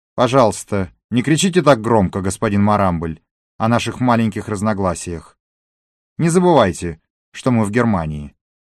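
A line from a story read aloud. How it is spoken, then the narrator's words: Stern. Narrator (Russian): И уже строго Лайль закончил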